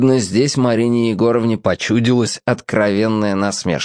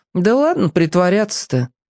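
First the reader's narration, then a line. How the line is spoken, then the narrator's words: Sighing. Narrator (Russian): вздохнул Сушкин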